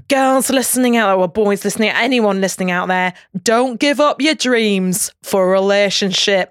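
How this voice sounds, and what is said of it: Put-on Yorkshire accent. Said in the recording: “I'm saying it in Yorkshire accent”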